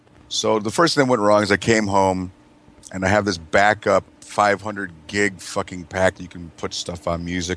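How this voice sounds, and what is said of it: Hoarse, strained voice. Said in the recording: “I was screaming at that stupid fucking show, so that's my voice is scragged.”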